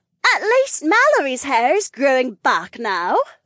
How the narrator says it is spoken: Eleanor chirped

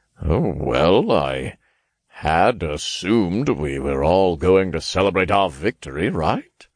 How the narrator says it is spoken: He chuckled

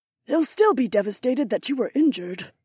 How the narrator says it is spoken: Isi murmured

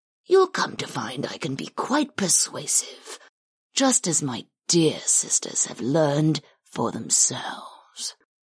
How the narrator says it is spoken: Karth murmured

